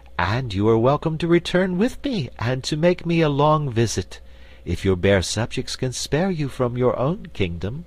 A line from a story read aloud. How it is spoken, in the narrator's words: returned Ozma sweetly